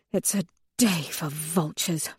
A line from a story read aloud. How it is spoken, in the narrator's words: Victra mutters